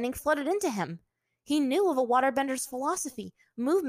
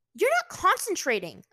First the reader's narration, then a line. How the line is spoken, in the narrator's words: Azula snapped at him